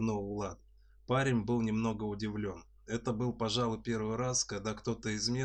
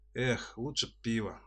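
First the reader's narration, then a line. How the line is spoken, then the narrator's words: Sighed. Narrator (Russian): вздохнул Лопатин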